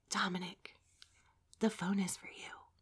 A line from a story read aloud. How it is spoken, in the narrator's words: I tried to whisper